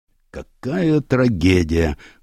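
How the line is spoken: Sigh. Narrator (Russian): вздохнул следователь

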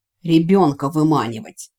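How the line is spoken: Irritated explanation. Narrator (Russian): раздраженно пояснил мартифор

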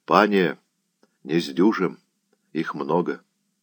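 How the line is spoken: Sergeant's whisper. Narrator (Russian): вахмистр и шепнул

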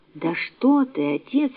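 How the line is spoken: Joyful exclamation. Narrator (Russian): воскликнула Рахиль, просияв от радости

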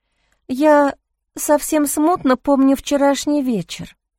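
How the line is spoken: Timid. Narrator (Russian): робко произнесла Джейн

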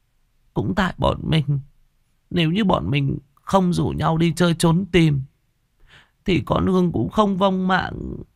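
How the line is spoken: Sniffling tearful telling. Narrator (Vietnamese): sụt sịt, mếu máo kể

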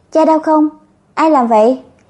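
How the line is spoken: Calm unafraid question. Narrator (Vietnamese): không có một chút sợ hãi

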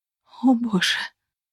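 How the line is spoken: Whispering. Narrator (Russian): прошептала

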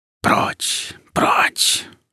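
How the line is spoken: Whisper. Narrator (Russian): шептал

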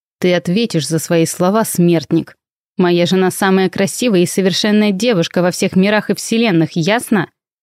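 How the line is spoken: Furious growl. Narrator (Russian): Прорычал Нокс Нуар так яростно

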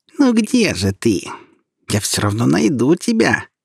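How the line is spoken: Nasty squeaky little voice. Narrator (Russian): пропищал поганенький голосок

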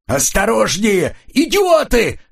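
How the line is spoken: Yelling. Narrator (Russian): заорал Коридон

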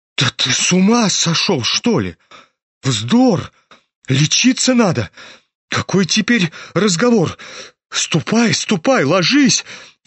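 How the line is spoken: Frightened shout. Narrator (Russian): испуганно крикнула Лизавета Прокофьевна

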